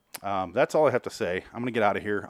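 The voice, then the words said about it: Out of breath, panting. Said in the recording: “I am severely out of breath. ... Whew, it's very hot in this room.”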